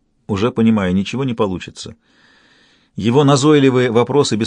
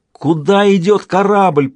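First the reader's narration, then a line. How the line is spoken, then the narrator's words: Shouting into emptiness. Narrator (Russian): прокричал в пустоту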